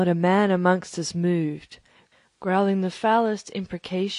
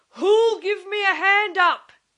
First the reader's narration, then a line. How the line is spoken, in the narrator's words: he roared